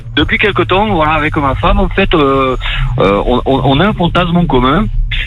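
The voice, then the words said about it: Southern French accent. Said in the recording (French): “t'as l'accent du sud”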